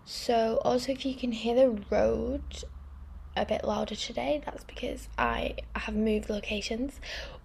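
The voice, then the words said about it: Posh-sounding accent. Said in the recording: “talking so posh?”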